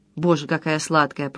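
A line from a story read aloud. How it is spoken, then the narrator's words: Breathless mutter. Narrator (Russian): пробормотал он, задыхаясь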